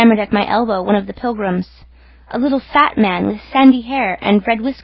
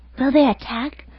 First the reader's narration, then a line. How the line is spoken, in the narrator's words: whispered an odd voice